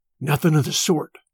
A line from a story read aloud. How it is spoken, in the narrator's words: Smoke whispered back